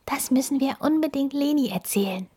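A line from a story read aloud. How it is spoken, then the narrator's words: Whispering. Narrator (German): flüstert sie Max zu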